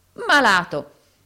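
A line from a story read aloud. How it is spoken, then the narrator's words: Sick man, breathless exclamation. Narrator (Italian): esclamò l'infermo anelando e respirando a fatica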